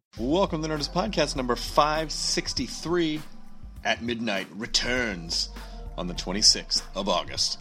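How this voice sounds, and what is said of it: Dramatic announcer-style delivery. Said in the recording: “I don't know why my voice is so dramatic.”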